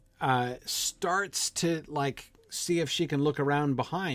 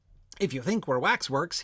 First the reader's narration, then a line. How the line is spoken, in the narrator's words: he said